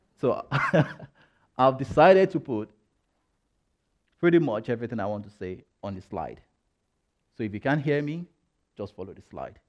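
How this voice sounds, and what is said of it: Speaks with an accent. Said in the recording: “you might have noticed that I have an accent”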